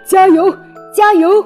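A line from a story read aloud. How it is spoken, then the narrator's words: Repeated cheering shouts. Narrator (Chinese): 胖子伯吉斯 嘴里不停地喊着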